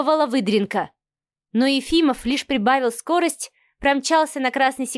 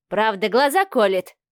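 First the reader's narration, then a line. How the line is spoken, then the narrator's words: Snorting grunt. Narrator (Russian): хмыкнул Алексей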